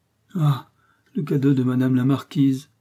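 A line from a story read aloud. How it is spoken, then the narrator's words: Exclamation with deep sigh. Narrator (French): s'écrie Marthe avec un profond soupir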